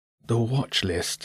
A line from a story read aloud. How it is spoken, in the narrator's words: he murmured